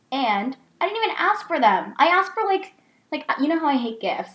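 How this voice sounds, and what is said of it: Yelling, heated loud speech. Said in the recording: “I'm yelling, ... fired up,”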